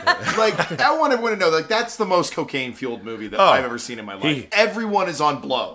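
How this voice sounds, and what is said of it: Imitates another person's voice. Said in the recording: “Jack Nicholson impression. ... This is my Jack Nicholson impression.”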